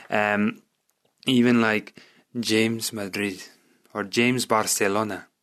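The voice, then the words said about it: Put-on foreign accent. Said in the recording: “I'm putting on this accent as well. I feel like I could be offending a whole nation with that.”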